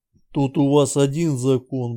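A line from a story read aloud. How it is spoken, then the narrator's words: Grumbling mutter. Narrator (Russian): буркнул Георгий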